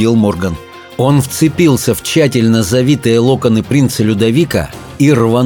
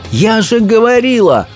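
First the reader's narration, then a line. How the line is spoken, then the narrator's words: Sudden cry. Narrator (Russian): вскрикнула Софи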